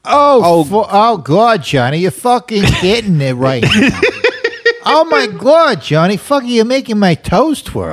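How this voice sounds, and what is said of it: Put-on Long Island woman's accent. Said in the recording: “like a woman from like Long Island, like with that accent”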